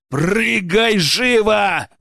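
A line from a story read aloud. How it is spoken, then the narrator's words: Loud bark. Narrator (Russian): гаркнул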